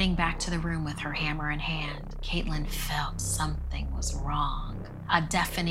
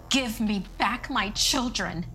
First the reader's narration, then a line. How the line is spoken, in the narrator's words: she screamed